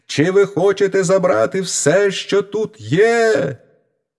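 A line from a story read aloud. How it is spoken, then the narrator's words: Full-throated shout. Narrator (Ukrainian): Мізинчик як закричить на все горло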